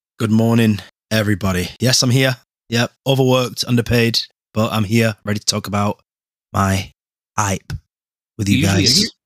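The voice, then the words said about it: Tired, exhausted-sounding voice. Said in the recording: “He sounds exhausted ... He sounds like we're forcing him to be here.”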